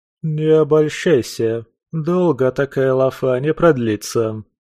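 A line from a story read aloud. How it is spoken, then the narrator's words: Gloomy announcement. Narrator (Russian): незабудка мрачно объявила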